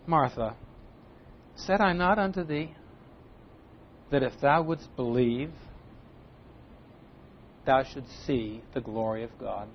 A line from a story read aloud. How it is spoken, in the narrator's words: the Lord says to her, I think maybe with a little note of disappointment, but I'm sure very tenderly